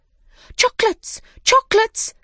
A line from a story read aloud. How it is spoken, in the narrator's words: they cried